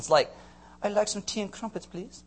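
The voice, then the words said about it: Bad put-on British accent. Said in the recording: “I got a terrible British accent”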